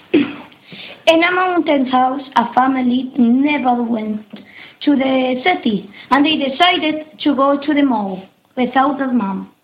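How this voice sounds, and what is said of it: Beautiful Scottish accent. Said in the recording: “his very beautiful Scottish accent”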